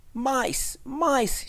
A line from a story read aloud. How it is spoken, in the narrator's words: screamed